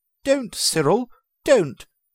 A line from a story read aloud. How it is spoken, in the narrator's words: exclaimed the aunt